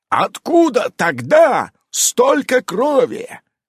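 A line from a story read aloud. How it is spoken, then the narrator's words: Roaring, huge werewolf. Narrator (Russian): орал здоровенный оборотень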